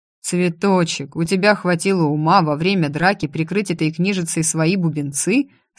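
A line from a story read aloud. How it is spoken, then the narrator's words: Plain. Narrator (Russian): спросил Оливер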